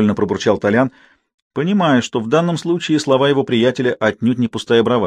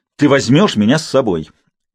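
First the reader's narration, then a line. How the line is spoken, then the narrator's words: Resolute repetition. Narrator (Russian): решительным тоном повторил Сергей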